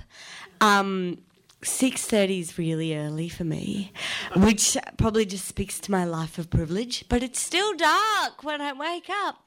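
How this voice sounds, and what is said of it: Slightly croaky voice. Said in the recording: “My voice is a bit croaky”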